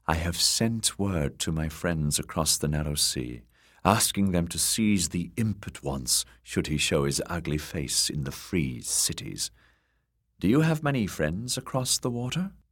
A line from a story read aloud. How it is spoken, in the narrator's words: said in her sultry, mirish tones